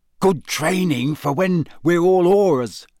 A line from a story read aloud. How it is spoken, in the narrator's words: said Ron excitedly